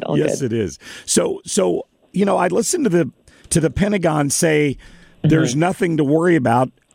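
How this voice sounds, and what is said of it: Rough, hoarse voice. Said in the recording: “Apologize for my voice being a little rough from this cold that I'm fighting.”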